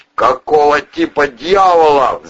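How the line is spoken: Drunk man roaring behind door. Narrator (Russian): взревел под дверью совершенно пьяный мужской голос

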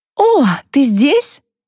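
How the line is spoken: Joyful. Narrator (Russian): радостно проговорила Софи

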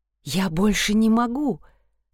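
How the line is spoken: Trembling voice. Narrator (Russian): сказала я дрожащим голосом

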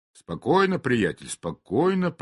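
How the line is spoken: Muttering. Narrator (Russian): пробормотал я

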